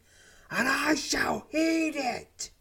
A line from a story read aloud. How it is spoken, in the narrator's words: he shrieks as tears stream down his face